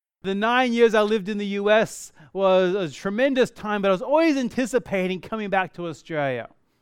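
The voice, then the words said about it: Australian with picked-up American accent. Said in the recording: “I picked up an accent ... the accent I can't do anything about”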